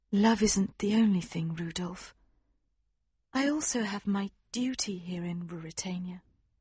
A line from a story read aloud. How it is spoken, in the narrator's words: she said gently